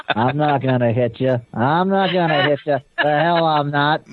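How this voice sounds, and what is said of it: Imitates another person's voice. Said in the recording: “do a John Wayne impersonation? ... Man, John Wayne, classic, man.”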